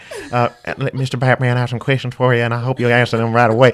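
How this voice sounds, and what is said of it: Holly Hunter impression with slight lisp. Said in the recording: “doing an impression of Holly Hunter in Batman versus Superman ... it's just like a slight lisp”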